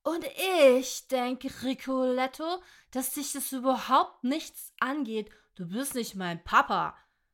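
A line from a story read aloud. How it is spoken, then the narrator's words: Angry hiss. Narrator (German): zischte wütend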